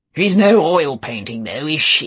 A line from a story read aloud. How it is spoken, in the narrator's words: said Giles, and he roared with laughter